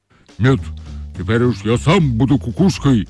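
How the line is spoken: Angry shaggy dog. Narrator (Russian): сердито сказал лохматый пес

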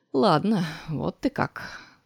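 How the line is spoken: Wry mutter. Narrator (Russian): пробормотал Ларри, скривив губы

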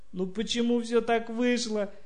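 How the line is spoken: Sobbing speech. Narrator (Russian): сквозь рыдание сказала она

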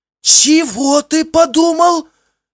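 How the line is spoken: Shocked shriek. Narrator (Russian): взвизгнул я, пораженный его тупостью

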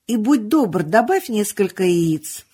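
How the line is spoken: Shouting after someone. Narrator (Russian): крикнул Гэндальф вслед убегавшему в кладовую Бильбо

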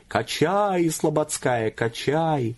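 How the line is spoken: Continued yelling. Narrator (Russian): Макар Иваныч или его душа все продолжали вопить

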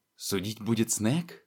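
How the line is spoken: Indistinct mumble, mouth full of dirt. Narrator (Russian): Невнятно пробормотал он, выплевывая забившуюся в рот грязь

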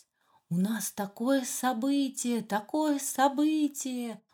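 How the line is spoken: Joyful trumpeting elephants. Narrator (Russian): Радостно трубили взрослые слоны

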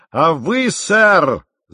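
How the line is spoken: Captain's unusual shout. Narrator (Russian): закричал капитан голосом, какого я никогда у него не слышал

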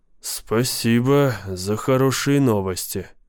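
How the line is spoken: Muttering. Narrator (Russian): пробормотал я

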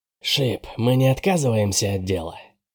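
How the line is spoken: Quiet question. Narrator (Russian): спросила тихим голосом Генри

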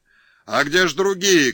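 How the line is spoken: Crowd of men shouting. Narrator (Russian): кричали казаки

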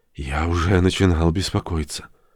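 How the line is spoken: Quiet. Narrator (Russian): Родж тихо сказал

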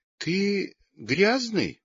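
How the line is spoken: Timid. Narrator (Russian): робко сказала Лёлька

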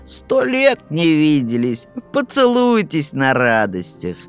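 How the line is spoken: Mocking. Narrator (Russian): Корневу, который, грызя ногти, насмешливо скажет

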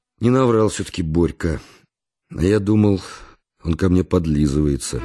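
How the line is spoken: Sighing. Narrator (Russian): вздохнул и сказал

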